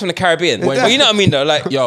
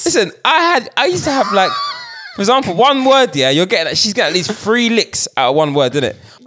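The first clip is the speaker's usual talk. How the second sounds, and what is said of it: Put-on African accent. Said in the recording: “Why am I doing an African accent?”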